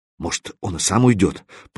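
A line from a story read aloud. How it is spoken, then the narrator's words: Muttering. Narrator (Russian): пробормотал поршень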